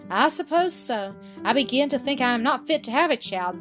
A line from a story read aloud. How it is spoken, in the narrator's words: Zillah said, half impatiently, half sadly